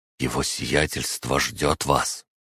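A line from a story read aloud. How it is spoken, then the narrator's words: Hesitant whisper. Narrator (Russian): Поколебавшись, он повернулся ко мне и прошептал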